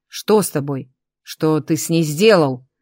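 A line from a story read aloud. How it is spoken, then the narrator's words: Growling. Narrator (Russian): зарычал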